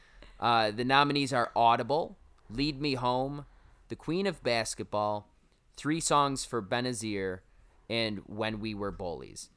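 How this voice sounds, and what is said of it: Syracuse accent. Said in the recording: “there's my Syracuse accent coming out for you ... we pronounced the A”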